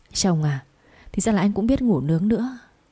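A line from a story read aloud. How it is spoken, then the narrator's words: Trembling soft voice. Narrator (Vietnamese): run rẩy nói nhỏ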